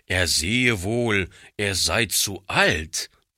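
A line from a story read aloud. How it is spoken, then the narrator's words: Blustering outburst. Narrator (German): polterte er heraus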